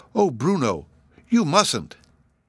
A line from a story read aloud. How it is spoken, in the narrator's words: Sylvie exclaimed in alarm